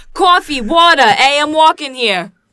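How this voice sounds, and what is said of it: Exaggerated New Jersey accent. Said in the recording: “you're from New Jersey, but you don't have an accent. I'm sorry, what would you like me to do?”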